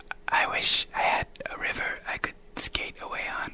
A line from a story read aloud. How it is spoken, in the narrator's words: I got scared and I quietly whispered to myself